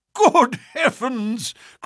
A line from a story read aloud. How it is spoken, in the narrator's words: cried the Colonel, laughing